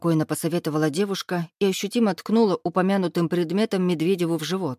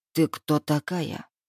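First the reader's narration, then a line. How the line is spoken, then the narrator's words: Hissing bear. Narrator (Russian): прошипел медведь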